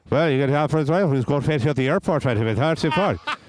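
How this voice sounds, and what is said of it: Imitating a local man's accent. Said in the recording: “He was speaking to me like this ... I was speaking in the exact same accent.”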